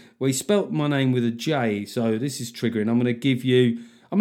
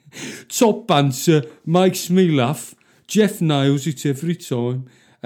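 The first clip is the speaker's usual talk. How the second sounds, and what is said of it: Put-on Brummie accent. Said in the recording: “the worst accent possible. Brummy.”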